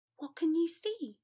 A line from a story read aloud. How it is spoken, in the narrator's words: Granger said anxiously